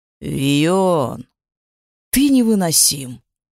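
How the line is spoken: Father's reply, sigh. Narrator (Russian): откликнулся отец и вздохнул

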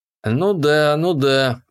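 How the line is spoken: Drawn-out. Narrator (Russian): протянул я

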